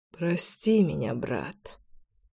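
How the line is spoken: Mutter. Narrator (Russian): пробормотал

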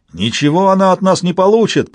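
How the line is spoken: Angry roar. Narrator (Russian): проревел кто-то сердито

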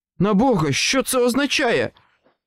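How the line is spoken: Exclaiming. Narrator (Ukrainian): вигукнув Харкер

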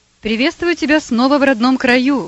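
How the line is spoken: Joyful exclamation. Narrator (Russian): воскликнул Никифоров

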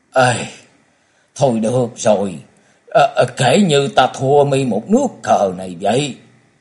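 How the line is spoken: Sorrowful sigh. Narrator (Vietnamese): thở dài một hơi áo não và nói

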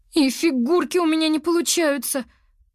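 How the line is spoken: Moaning. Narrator (Russian): простонала она

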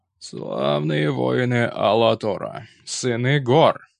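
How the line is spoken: Creaky voice, trying to sound stern. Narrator (Russian): Его голос, скрипучий, как несмазанная телега, пытался звучать грозно и вдохновенно

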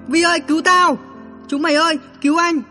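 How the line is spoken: Panicked jumbled screaming. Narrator (Vietnamese): Hoảng quá hét lẫn lộn hết cả

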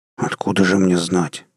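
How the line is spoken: Grumbling mutter. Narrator (Russian): пробурчал

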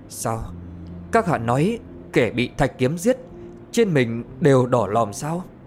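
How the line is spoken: Trembling question. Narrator (Vietnamese): Đỗ Tiểu Mãn toàn thân đều run rẩy, mà hỏi

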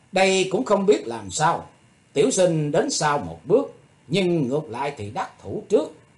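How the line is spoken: Smiling. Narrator (Vietnamese): Thủy Tuấn Hạo chàng mỉm cười nói

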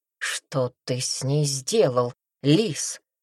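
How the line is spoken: Hissed. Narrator (Russian): прошипел он

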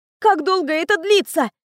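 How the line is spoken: Barking. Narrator (Russian): рявкнула она

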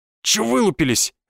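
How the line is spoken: Barked. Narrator (Russian): рявкнул Николай

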